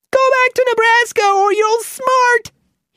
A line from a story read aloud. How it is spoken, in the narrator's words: he yelled